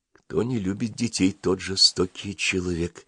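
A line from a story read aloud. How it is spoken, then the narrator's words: Quiet. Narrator (Russian): тихо сказала Маруся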